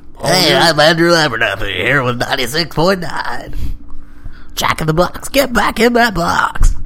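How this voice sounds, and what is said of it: Announcer-style radio voice. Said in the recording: “I like my radio voice.”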